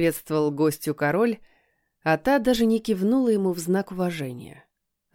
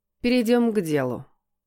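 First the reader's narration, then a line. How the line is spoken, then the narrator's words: Cold woman's voice. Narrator (Russian): холодно произнесла женщина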